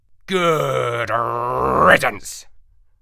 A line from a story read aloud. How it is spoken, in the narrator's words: I growled